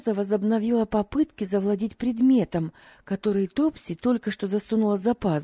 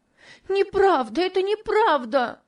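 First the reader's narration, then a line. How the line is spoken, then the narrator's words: Sobbing scream. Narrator (Russian): кричала Топси, громко рыдая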